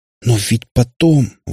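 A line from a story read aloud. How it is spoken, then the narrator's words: Strained. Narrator (Russian): выдавил он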